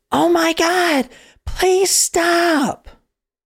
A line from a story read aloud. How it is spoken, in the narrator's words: The daughter screams